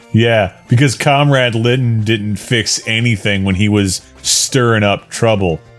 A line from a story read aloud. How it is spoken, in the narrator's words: I snapped sarcastically